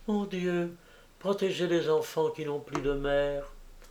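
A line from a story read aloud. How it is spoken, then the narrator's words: Girls murmuring together softly. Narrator (French): Les fillettes ensemble d'une voix basse, presque un murmure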